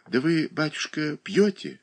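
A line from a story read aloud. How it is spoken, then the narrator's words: Very timid question. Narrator (Russian): совсем робко спросила Марья Дмитриевна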